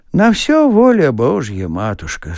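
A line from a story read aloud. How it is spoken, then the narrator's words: Sighing. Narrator (Russian): сказал Чичиков, вздохнувши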